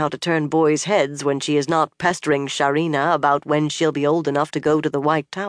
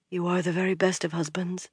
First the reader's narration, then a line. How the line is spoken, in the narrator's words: she murmured